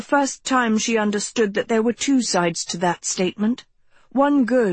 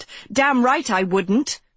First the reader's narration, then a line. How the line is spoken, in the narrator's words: she snapped